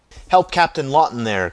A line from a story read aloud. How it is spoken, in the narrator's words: cried Mason